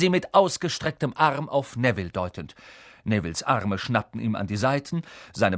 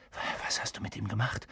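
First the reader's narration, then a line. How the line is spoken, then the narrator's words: Whisper. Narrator (German): flüsterte Harry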